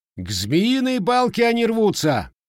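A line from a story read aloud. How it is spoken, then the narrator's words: Loud explanation. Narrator (Russian): громко объяснил десятник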